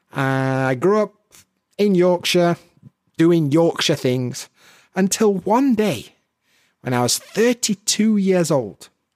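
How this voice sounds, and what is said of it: Yorkshire English accent. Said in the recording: “I've got a bit of a Yorkshire accent.”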